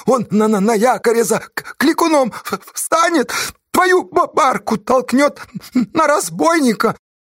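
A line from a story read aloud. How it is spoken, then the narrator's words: Wolfish groan through teeth. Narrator (Russian): Асташа застонал сквозь стиснутые зубы по-волчьи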